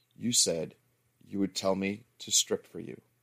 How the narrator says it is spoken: she said softly

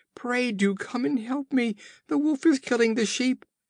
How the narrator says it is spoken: his cries

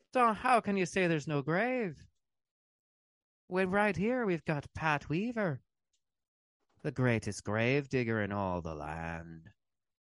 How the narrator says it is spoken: Someone else called out

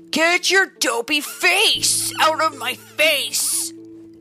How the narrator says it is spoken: snarled

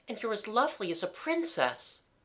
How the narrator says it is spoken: added brightly

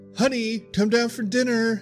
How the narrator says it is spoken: my mom shouted

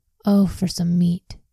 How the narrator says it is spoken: they exclaimed

